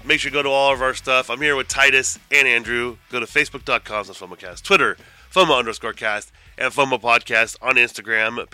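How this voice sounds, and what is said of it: Sounds sick. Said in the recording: “If I sound sick because I am sick”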